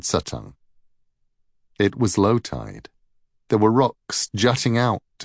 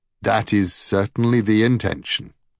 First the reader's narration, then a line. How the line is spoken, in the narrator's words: said Suttung